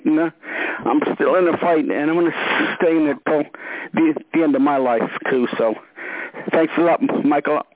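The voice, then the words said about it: Choked-up, emotional voice. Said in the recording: “I'm all choked up. I can't say anymore.”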